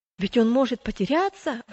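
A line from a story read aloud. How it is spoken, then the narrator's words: Exclamation. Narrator (Russian): воскликнул третий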